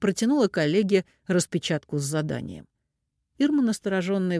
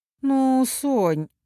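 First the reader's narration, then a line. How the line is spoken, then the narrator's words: Sighing. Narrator (Russian): вздохнула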